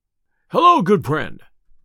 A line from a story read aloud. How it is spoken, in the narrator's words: cried Robin